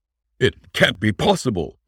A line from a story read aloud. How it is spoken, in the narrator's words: he exclaimed